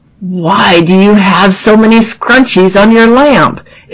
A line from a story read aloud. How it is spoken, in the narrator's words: hear the actor grumble